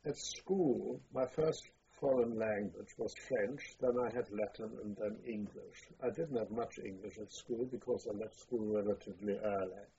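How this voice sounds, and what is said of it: Non-native accent speaking English. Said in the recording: “I've never got rid of my accent”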